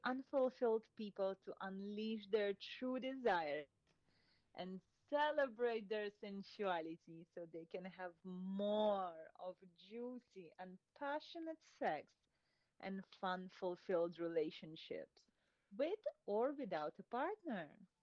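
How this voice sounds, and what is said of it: Speaks with a foreign accent. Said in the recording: “Maybe it's your accent.”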